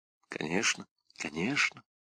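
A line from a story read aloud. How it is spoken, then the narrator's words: Whisper. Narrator (Russian): прошептал Каррас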